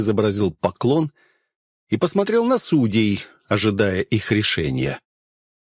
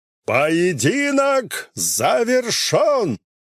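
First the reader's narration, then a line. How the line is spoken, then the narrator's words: Loud public announcement. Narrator (Russian): Громко, чтобы услышали все, произнес судья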